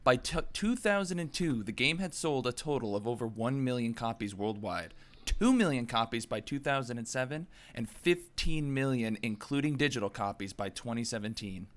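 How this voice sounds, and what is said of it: American accent. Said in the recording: “I think it's the American accent. It just lends itself to it.”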